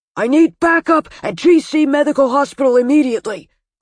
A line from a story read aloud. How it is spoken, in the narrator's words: Gordon roared into the walkie-talkie